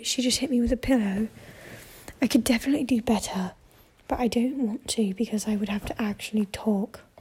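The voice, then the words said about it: Whispery, hushed talking. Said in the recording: “I'm kind of whisper talking... I'm kind of whisper talking right now”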